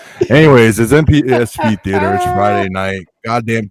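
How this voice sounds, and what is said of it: Usual voice. Nothing is said of it.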